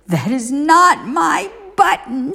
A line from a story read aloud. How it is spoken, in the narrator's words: shouted Toad